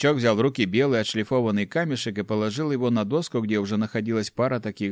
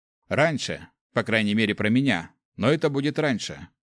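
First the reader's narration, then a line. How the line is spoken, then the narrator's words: Snorting grunt. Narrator (Russian): хмыкнул Гюш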